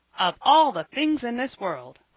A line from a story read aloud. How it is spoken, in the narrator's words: cried the old gentleman